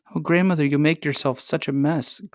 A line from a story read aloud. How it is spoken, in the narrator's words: cried Irene